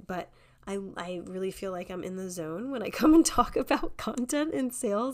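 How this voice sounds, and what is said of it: Voice sounds weird, unwell. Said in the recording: “I actually have COVID. That's why I sound weird right now.”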